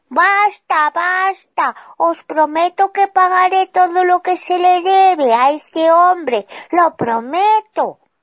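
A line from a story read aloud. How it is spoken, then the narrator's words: Shouting. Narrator (Spanish): este salió corriendo mientras gritaba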